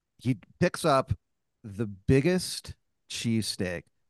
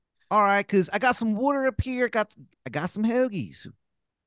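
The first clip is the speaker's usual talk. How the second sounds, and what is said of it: Exaggerated Philadelphia accent. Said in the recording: “the worst Philadelphia accent that you have ever heard in your fucking life”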